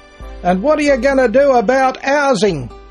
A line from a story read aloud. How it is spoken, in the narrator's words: a heckler shouted at the politician